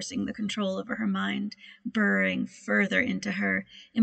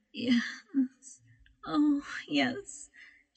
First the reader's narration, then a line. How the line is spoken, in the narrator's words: she whimpered